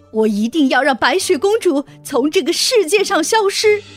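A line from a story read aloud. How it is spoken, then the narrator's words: Furious scream. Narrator (Chinese): 王后听完这个回答，气愤极了，她大叫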